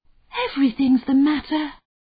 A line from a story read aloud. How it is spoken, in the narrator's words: sighed Sparrow